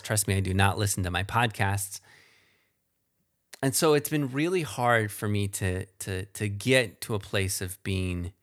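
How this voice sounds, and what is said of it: Slow speech with a twang. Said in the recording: “I'm a slow talker. I don't like the twang of my voice.”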